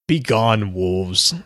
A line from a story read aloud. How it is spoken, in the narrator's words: Sagoth sneered